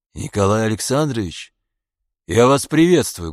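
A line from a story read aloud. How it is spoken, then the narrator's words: Loud. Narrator (Russian): громко сказал он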